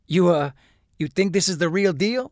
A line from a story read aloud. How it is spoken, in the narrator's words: Huell asked, chuckling nervously